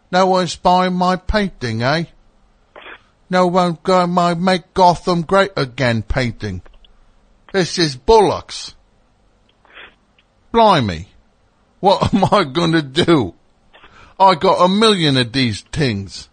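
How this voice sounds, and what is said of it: Poor put-on British accent. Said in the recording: “They don't say tings. That's not a British accent.”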